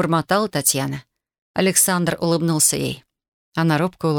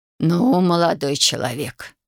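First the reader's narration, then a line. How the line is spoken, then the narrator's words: Grumbling grandmother. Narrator (Russian): проворчала бабушка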